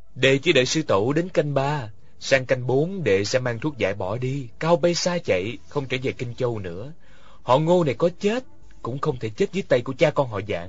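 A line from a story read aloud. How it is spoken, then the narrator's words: Soft voice. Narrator (Vietnamese): Ngô Khảm khẽ nói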